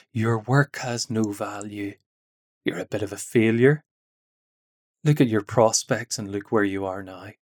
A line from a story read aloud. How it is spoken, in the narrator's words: Satan whispers in our ears